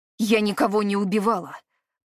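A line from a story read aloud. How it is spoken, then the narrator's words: Through clenched teeth. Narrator (Russian): процедила она сквозь зубы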